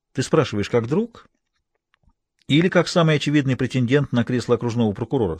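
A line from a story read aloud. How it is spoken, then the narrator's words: Plain. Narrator (Russian): спросила она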